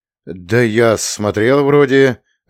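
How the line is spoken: Timid, strained words. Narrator (Russian): выдавил Миша, робея от неожиданной близости

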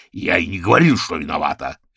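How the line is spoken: Barked. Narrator (Russian): рявкнул Орвилл

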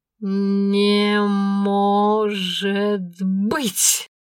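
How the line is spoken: Stunned drawl. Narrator (Russian): ошарашенно протянула Аленка

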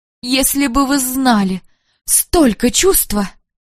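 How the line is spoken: Tearful muttering. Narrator (Russian): Часто в слезах бормотала

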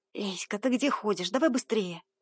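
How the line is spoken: Hissed. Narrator (Russian): Прошипела Кира, моя сменщица

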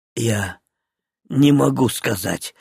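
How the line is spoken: Whisper. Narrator (Russian): прошептал Зильберт

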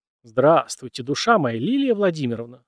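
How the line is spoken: Elderly man exclaiming. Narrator (Russian): воскликнул пожилой мужчина

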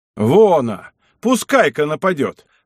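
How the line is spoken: Exclaimed by several voices. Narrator (Russian): воскликнули клирики

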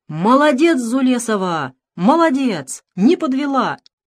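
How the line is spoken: Excited shouting. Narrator (Russian): директор училища возбужденно кричал

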